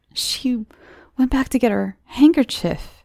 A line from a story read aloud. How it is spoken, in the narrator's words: exclaimed Welch